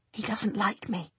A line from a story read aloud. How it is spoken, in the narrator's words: she whispers urgently